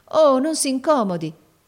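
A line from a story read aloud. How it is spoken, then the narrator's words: Flustered girl exclaiming. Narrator (Italian): esclamò la ragazza confusa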